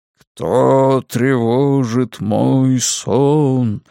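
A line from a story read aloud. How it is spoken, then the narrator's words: Sepulchral voice. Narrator (Russian): спрашиваю я за могильным голосом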